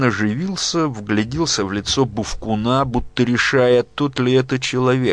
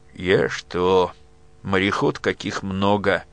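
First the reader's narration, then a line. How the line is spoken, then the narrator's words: Muffled hollow voice. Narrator (Russian): глухим голосом сказал Милован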